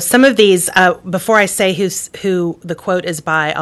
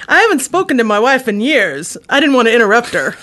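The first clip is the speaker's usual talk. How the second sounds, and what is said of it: Poor Rodney Dangerfield impression. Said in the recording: “I'll try to do an impersonation ... That was really awful ... Rodney Dangerfield.”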